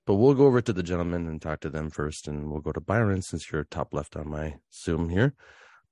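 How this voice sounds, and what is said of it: Deep, congested voice. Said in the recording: “I sound like Barry White because I have a head cold.”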